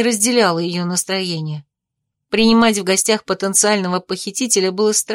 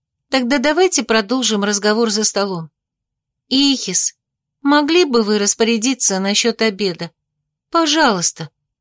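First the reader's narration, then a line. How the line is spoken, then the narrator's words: Gentle request. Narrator (Russian): ласково попросила сестра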